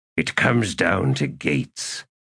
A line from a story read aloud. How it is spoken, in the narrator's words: Quick Ben muttered